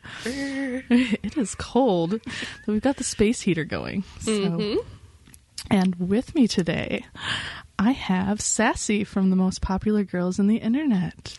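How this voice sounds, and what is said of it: Nice, quiet, sexy voice. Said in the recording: “You do such a nice, quiet, sexy voice.”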